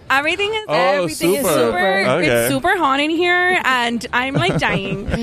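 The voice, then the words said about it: Put-on Miami girl accent. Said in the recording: “the Miami girl accent”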